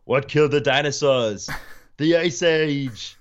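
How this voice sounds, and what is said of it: Imitates another person's voice. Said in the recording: “can do a decent Arnold Schwarzenegger impression.”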